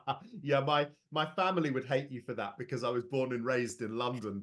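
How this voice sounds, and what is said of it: English Midlands accent. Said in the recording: “it's really nice to hear a good Midlands accent”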